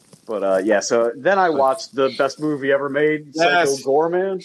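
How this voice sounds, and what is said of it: Usual voice. Nothing is said of it.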